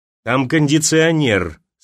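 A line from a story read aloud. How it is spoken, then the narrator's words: Through gritted teeth. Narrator (Russian): сквозь зубы сказал Гаврилов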